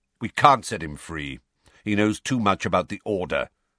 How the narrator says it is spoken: said Sirius curtly

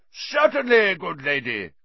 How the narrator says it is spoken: cried Sir Cadogan

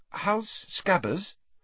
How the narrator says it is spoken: Hermione asked timidly

